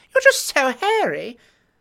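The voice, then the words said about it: High-pitched affected Capitol accent. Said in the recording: “her silly capital accent ... speak in such a high pitch ... jaws barely open when they talk ... ends of their sentences go up as if they're asking a question ... Odd vowels, clipped words, always a hiss on the letter S”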